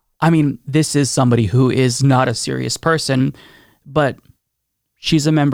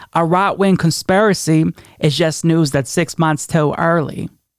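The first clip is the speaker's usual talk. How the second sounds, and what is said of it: Imitates another person's voice. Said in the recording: “terrible Marjorie Taylor Greene impression”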